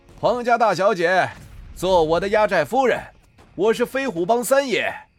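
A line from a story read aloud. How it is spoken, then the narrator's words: Shouting. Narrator (Chinese): 白虎大喊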